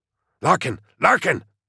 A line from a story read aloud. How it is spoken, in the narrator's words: Korbeck hissed